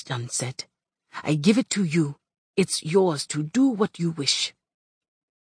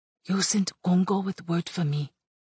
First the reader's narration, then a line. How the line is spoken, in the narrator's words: I whispered to Sebastian